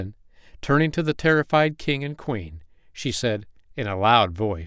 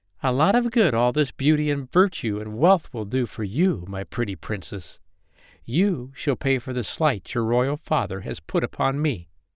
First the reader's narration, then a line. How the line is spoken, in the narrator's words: she laughed and exclaimed